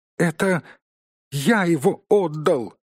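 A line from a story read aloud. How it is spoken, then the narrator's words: Frightened squeak from behind wall. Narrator (Russian): испуганно пискнул Бильбо, высунув голову из-за стены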